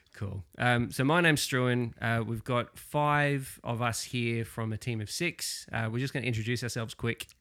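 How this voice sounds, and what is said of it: Australian accent. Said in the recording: “as you'll probably be able to tell from my accent, I am not natively Scottish. Um, I am another Australian”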